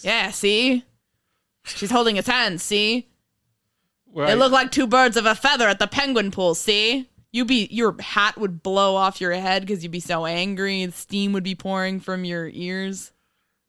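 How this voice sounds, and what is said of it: Old-timey 1930s reporter voice. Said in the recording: “Your old-timey 1930s reporter voice?”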